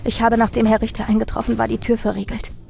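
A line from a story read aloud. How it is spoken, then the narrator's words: Trembling stammer, tearful. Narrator (German): stammelte ich mit zitternder Stimme und begann zu weinen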